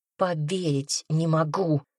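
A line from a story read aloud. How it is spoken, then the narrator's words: Hissing hound. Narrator (Russian): прошипела гончая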